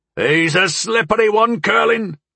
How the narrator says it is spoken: Morg shouted, grinning and seemingly enjoying the hunt

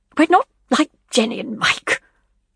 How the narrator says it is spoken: Leslie snapped

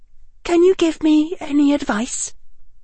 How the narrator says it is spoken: she said, and her voice trembled only a little

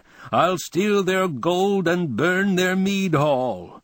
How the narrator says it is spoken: A man would roar

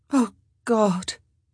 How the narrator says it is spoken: Sophie moaned

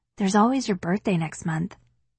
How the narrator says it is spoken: whisper

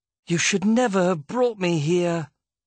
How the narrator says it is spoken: Dodge moaned

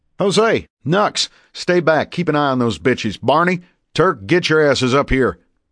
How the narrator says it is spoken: the rifleman yell

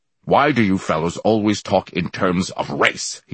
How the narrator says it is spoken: He snapped, his eyes blazing

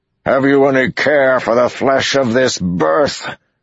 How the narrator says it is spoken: Demandred thundered in the distance

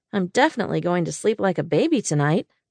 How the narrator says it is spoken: I said dryly

